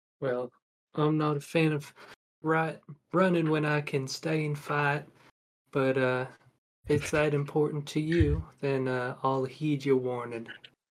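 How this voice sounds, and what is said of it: Put-on Southern accent. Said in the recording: “Why is he so southern all of a sudden? ... it's, southern. I thought he was an Aussie ... he's got a wandering accent”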